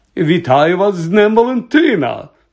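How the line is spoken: Exclaiming. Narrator (Ukrainian): вигукнув Локарт

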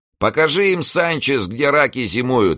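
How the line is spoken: Cheerful shout. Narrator (Russian): весело крикнул кто-то из них

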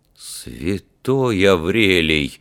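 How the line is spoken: Horrified mutter. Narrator (Russian): в ужасе пробормотал капитан Филсби

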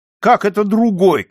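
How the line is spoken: Shouting. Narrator (Russian): кричал он

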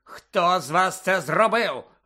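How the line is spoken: Harsh bark. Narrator (Ukrainian): гаркнув він

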